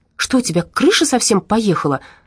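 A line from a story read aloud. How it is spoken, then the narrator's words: Angry shout. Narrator (Russian): зло выкрикнула Надя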